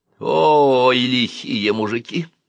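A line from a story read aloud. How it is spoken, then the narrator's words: Moaning. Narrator (Russian): простонал тетя Клавдия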